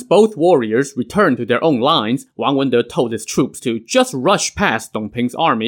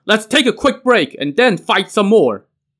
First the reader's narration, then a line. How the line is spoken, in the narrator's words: he shouted